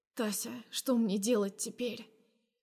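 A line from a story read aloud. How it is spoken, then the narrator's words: Quiet voice. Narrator (Russian): Произношу я тихо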